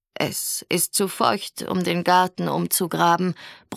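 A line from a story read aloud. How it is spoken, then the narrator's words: Grumble. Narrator (German): brummte Grand-Mère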